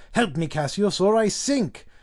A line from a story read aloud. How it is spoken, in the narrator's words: Caesar cried